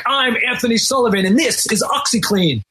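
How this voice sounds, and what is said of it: Put-on British accent. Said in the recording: “That's my British accent ... That's very good. That's very good.”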